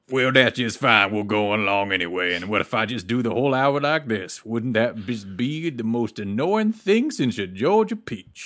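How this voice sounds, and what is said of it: Put-on Southern cowboy accent. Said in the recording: “from one cowboy to another ... I don't know what else to say in that accent.”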